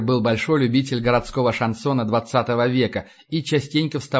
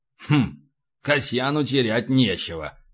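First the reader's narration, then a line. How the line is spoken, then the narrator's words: Skeptical grunt. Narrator (Russian): хмыкнул Полубой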